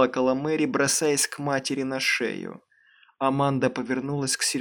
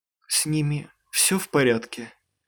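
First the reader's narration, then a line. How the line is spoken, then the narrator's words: Trembling voice. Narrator (Russian): спросил он дрожащим голосом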